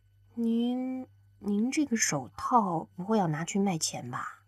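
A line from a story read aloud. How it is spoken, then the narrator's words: Quiet mutter. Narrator (Chinese): 刘亚楠小声的嘀咕了一句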